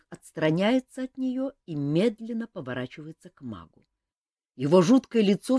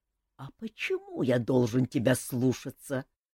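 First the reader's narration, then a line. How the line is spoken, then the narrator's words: Quiet and threatening. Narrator (Russian): тихо и угрожающе спрашивает он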